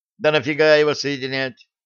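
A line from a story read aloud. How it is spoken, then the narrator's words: Snorting. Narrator (Russian): хмыкнул Драгович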